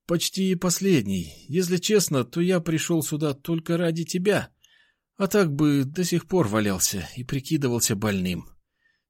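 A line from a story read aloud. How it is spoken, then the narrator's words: Barely audible. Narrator (Russian): еле слышно сказал он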